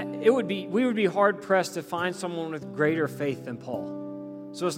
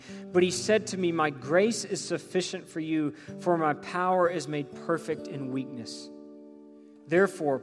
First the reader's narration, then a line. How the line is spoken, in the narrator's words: Paul says